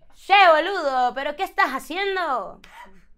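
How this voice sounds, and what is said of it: Put-on Argentine Spanish accent. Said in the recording (Spanish): “en, argentino”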